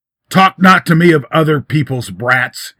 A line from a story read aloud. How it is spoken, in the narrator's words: he roared